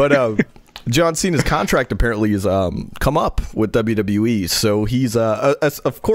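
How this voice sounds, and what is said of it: Usual voice. Nothing is said of it.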